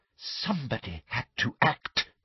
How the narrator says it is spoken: breathed Umbridge

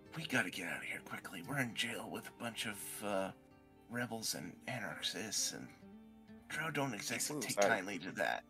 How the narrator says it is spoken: Merlette is going to whisper to Teekle

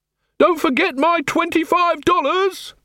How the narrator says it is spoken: he shouted

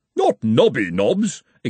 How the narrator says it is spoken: exclaimed the former dean

